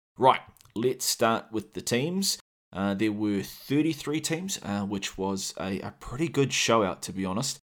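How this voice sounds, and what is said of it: New Zealand accent. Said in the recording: “my sexy Kiwi accent”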